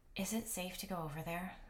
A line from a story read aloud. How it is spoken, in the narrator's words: I asked under my breath